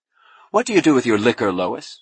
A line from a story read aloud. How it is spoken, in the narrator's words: snapped Clokey